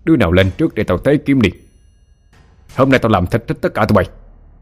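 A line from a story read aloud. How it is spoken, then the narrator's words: Loud bellow. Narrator (Vietnamese): quát lớn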